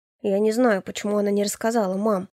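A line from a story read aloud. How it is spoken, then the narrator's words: Sullen mumble. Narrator (Russian): буркнул Илья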